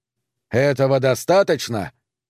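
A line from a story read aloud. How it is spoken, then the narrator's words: Shouted. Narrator (Russian): выкрикнул он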